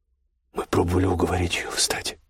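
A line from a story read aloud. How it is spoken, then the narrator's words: Quiet older woman. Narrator (Russian): тихо сказала полная немолодая женщина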